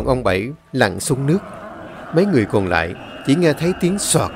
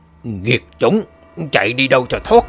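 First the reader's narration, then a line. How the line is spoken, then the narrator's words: Loud shout. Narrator (Vietnamese): ông Bảy miệng hét lớn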